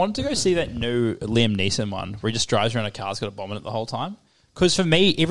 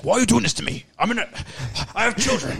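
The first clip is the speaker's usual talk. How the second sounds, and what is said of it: Imitates another person's voice, put-on accent. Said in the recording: “Is the accent good? I'm really trying.”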